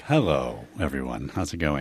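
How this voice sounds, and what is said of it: Polished public radio announcer voice. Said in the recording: “you have a better radio voice than me, and I'm a professional radio host ... Sometimes I lean into it ... it's positively Weekend Edition-esque”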